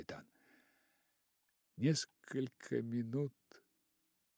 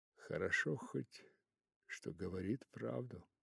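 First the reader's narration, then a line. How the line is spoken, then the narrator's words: Captain mumbling. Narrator (Russian): пробормотал капитан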